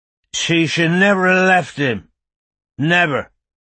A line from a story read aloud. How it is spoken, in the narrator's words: he said, loudly and clearly